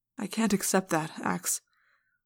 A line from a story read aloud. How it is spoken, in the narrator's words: Prince Jake said sadly